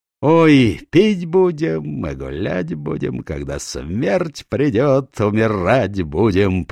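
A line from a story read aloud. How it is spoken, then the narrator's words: Sung, then merry laughter. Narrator (Russian): пропел, щелкая пальцами, и весело засмеялся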